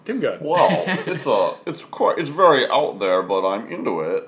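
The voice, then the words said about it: Imitates another person's voice. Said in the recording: “That's your best impersonation you've ever done... I'm floored how good that was”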